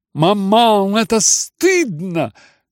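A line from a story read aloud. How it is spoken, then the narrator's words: Loud exclamation. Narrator (Russian): громко вскричала Аглая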